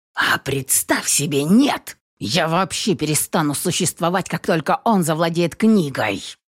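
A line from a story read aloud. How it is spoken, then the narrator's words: Impatient hiss. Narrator (Russian): Зашипел Кестер, дав понять коту, что диалог затягивается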